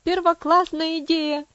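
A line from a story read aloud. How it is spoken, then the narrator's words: Shouting. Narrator (Russian): закричал Хэролд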